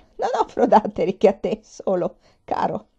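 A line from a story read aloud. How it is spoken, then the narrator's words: Laughing old woman. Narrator (Italian): disse ridendo la vecchia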